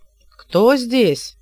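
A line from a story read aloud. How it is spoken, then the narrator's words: Shouting. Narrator (Russian): крикнул маг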